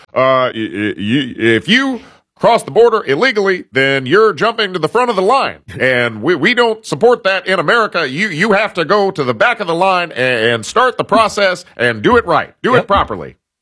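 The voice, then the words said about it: Imitates another person's voice. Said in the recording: “That's my Obama impression. ... That's actually pretty good.”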